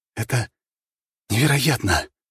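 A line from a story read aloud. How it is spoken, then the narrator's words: Breathless disbelief. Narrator (Russian): выдохнул, все еще не в силах поверить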